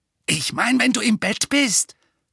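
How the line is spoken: Snarl. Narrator (German): fauchte

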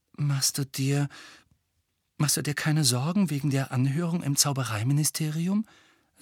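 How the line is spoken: Soft. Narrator (German): sagte leise

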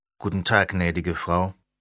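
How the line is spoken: Plain. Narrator (German): sagte Leo

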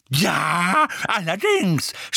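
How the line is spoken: Shouted. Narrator (German): schrie Mrs

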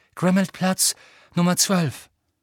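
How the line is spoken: Calling. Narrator (German): rief

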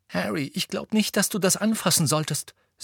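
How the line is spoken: Sharp. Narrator (German): sagte Hermine scharf

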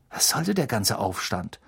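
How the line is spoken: Murmuring. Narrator (German): murmelte er Harry zu

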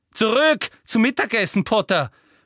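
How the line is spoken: Calling out. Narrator (German): rief

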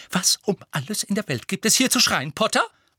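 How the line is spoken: Hissing. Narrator (German): fauchte sie

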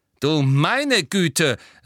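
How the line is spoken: Snide, gloating. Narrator (German): sagte Professor McGonagall hämisch

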